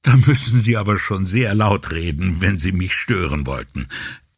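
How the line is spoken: Laughing reply. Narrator (German): erwiderte Guarino ebenfalls lachend

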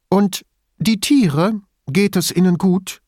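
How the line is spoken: Excited question. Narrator (German): fragte sie aufgeregt

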